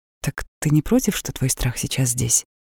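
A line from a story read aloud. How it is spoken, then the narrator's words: Soft question. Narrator (Russian): Я мягко спросила ее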